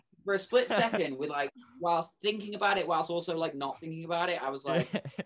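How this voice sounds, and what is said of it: British accent. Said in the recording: “there's the British accent”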